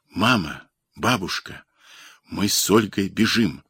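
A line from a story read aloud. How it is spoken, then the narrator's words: Boy whispering. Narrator (Russian): шепнул мальчик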